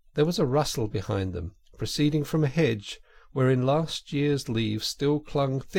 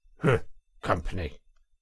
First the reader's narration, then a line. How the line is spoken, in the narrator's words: The badger grunted